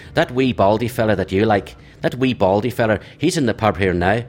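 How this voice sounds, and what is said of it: Poor imitation Northern Irish accent. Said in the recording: “this is a terrible Northern Irish accent”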